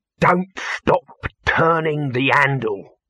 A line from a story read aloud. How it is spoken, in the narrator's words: Dibbler saying, in a voice hissing like a thrown knife